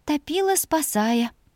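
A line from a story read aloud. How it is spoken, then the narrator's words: Quiet breathy. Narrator (Russian): выдохнула она тихо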